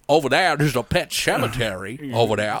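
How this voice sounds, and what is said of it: Put-on regional accent. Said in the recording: “Love that accent ... It's so good ... I can't do it perfectly”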